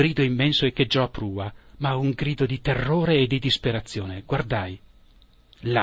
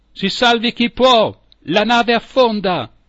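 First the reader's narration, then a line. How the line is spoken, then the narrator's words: Captain's alarmed shout. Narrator (Italian): Era il nostro capitano a gettare quel grido d'allarme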